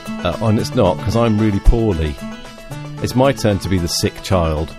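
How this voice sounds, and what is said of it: Voice with a cold. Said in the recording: “I've got a cold in August, of all things. So I'm going to have fits of coughing”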